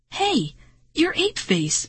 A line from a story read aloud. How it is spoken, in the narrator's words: Marty cried